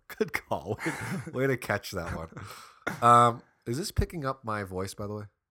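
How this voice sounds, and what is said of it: Slightly sick, nasal voice. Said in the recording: “my voice is a little off, I'm a little sick, so my nose ... is kinda...”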